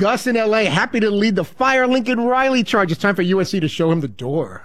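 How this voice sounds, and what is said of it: Usual voice. Nothing is said of it.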